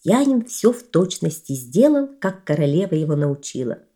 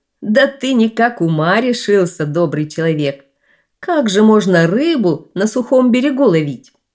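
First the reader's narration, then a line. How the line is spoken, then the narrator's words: King laughing. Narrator (Russian): Засмеялся король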